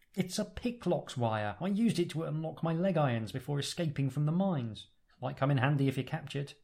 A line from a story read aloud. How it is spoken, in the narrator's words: exclaims